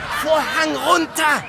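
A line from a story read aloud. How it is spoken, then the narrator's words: Frantic shouting, near breakdown. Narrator (German): schrie der Regisseur kurz vor einem Nervenzusammenbruch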